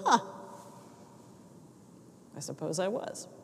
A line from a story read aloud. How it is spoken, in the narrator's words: with this pensive look on his face, and he mumbled